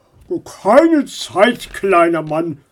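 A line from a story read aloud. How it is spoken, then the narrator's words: Grumbling. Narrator (German): brummte er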